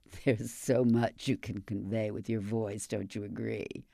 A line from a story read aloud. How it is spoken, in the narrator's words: With her famously throaty laugh, she adds